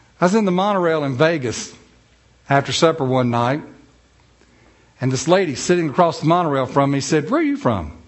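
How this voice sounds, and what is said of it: North Carolina Southern accent, drawn-out syllables. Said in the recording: “that's a North Carolina accent. She said, it sounds so pretty. ... all you got to do is draw your syllables out.”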